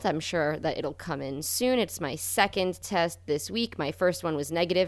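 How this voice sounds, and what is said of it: Slightly congested, less sharp voice. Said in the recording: “I've been a little sick with a head cold this week ... my voice isn't quite as sharp as usual”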